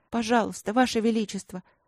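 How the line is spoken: Bitter sigh. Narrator (Russian): горько вздохнула Эбби

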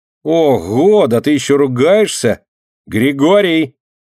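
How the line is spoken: Boy shouting. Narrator (Russian): крикнул мальчишка подошедшему дворнику

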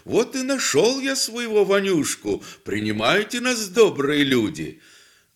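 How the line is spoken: Said cheerfully. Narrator (Russian): бодро так говорю

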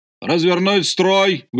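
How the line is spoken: Shouted. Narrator (Russian): выкрикнул Альгеев

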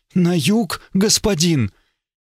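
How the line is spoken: Frightened question. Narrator (Russian): Она переспросила испуганно

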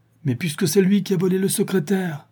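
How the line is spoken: Exclaimed. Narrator (French): s'exclama M

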